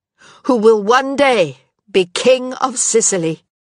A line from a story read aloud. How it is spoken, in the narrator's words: she said, loudly and clearly